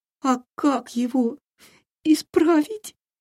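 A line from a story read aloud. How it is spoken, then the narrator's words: Sobbing question. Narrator (Russian): спросил, всхлипывая, Филька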